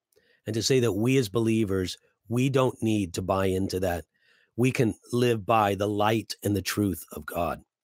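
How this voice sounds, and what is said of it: Tired, worn-out voice. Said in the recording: “My voice is kind of tiring out.”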